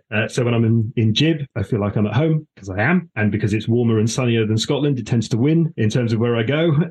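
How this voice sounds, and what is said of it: Slightly posh accent. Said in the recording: “slightly posh accent”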